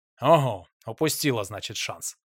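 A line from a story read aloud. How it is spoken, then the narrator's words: Chuckle. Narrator (Russian): хохотнул Павел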